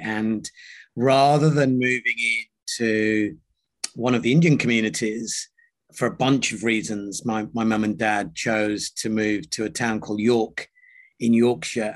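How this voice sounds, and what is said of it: British accent. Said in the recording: “I've clearly adopted a very British accent.”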